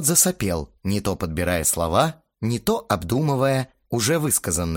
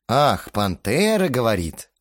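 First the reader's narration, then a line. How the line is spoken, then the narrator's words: Smirking drawl. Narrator (Russian): усмехнувшись, протянул я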